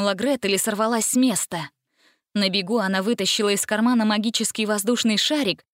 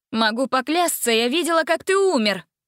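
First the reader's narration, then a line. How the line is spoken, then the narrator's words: Young woman shouting. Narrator (Russian): крикнула девушка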